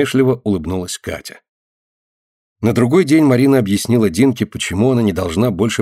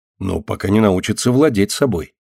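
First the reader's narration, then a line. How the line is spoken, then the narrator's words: Calm explanation. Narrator (Russian): спокойно пояснила старшая сестра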